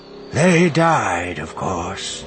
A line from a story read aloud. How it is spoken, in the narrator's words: he said, his voice distant